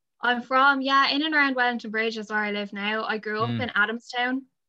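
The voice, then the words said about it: Flatter Irish Wexford accent. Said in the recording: “You've got a flatter accent.”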